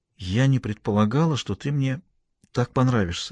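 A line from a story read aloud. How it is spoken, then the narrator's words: Said quietly, woman. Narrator (Russian): сказала она тихо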